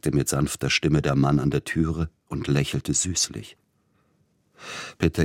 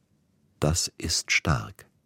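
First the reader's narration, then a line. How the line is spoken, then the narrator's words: Quiet speech. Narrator (German): sagte er leise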